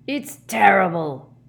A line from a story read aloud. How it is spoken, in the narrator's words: growled Hagrid into his beard